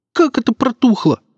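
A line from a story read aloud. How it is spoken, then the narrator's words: Squealing, voice cracking. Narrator (Russian): взвизгнул Серега и дал петуха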